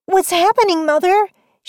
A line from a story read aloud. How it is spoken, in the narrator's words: asked, having to yell to be heard over the crackling fire